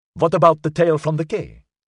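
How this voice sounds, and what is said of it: Distinct German accent. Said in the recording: “whose accent was distinctly German”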